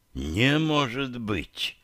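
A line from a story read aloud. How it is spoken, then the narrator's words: Excited breathless exclamation. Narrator (Russian): выдохнул, блестящими от возбуждения глазами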